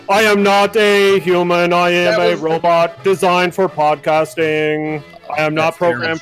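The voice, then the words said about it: Bad, boring robot voice. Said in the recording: “That's actually a terrible robot voice ... that's not even a good robot voice ... Is that an accent of the most boring human alive?”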